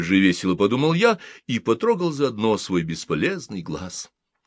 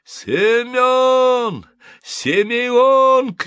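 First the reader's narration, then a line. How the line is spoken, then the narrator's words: Shouting. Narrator (Russian): кричал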